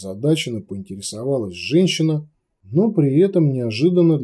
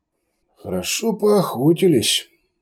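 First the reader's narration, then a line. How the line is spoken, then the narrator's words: Grumble. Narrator (Russian): проворчал Йозеф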